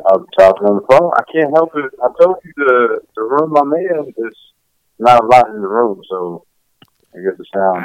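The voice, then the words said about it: Muffled voice over the phone. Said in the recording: “you be like muffled, like you talking like an old auntie”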